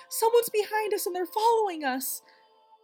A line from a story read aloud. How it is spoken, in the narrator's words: she does this shriek, and in a really panicky voice says